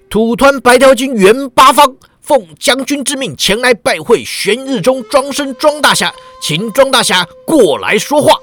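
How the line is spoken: Big man's thunderous roar. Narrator (Chinese): 那大汉运起狮吼功，喝道

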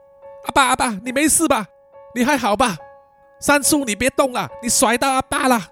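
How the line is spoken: Worried loud shout. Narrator (Chinese): 非常关心他爸爸的赵九呢，就大声的喊叫说

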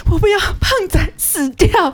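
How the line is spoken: Crying. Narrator (Chinese): 他就哭着跟我说

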